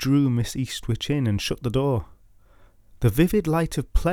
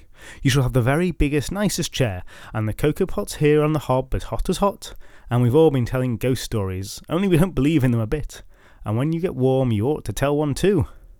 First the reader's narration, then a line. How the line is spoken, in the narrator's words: the youngest went on eagerly